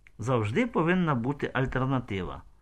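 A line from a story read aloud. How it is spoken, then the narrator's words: Sad. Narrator (Ukrainian): мовила сумно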